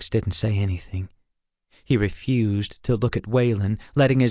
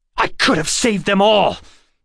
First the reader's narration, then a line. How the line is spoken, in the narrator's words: Alex almost shouted in a tone that was angrier than he would have liked